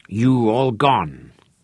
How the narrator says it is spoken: growled in ear

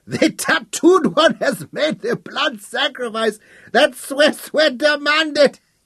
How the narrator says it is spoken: bellowed

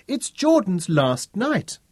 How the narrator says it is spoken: wailed the twins in unison

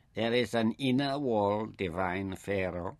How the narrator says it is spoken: Ishtar murmured in a silky tone

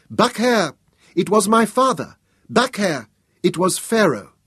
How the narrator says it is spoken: a child's voice broke the silence, as the prince cried out high and clear

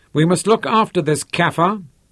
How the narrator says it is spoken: he said loudly

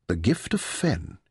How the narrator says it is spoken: he murmured

